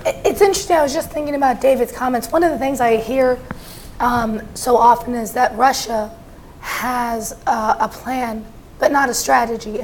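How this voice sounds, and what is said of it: Voice affected by a cold. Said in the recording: “apologize for my voice. I can survive war, but not a cold apparently.”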